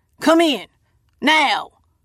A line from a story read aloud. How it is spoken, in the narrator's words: barks